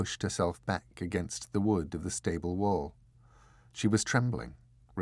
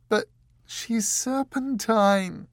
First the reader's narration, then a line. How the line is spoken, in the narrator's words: wailed Dor